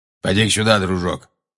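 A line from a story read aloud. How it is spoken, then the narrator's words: Grumbling. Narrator (Russian): проворчал Грюм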